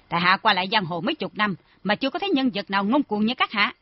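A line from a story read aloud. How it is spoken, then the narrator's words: Angry. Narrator (Vietnamese): Trần Triệu Kỳ tức giận nói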